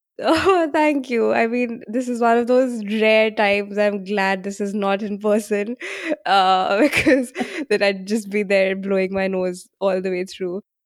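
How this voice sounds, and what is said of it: Congested voice from a cold. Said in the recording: “I have a bit of a cold, which is probably why I sound a little disgusting.”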